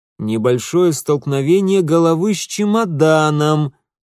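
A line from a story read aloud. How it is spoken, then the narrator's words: Loud clarification. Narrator (Russian): громко уточнил отец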